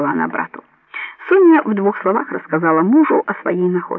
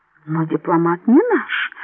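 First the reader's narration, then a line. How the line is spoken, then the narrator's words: Embarrassed mutter. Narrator (Russian): смущенно пробормотал Антонио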